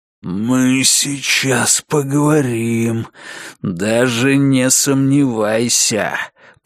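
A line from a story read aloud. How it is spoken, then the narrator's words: Growl. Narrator (Russian): прорычал он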